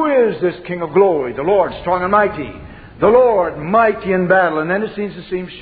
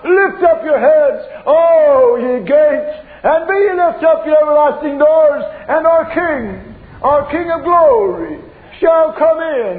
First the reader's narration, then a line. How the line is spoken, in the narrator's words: the angels by the myriad are assembled, and they lift up the shout